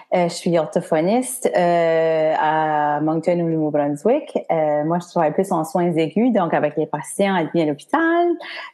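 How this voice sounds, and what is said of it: Acadian French accent. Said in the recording (French): “je viens de l'Acadie avec mon bel accent, où ce qu'on mélange de français puis de l'anglais ... J'adore l'accent.”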